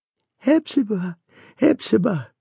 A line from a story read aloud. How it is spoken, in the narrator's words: cried the voice